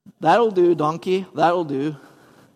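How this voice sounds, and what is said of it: Put-on Scottish accent. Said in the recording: “I don't know if that was a good Scottish accent”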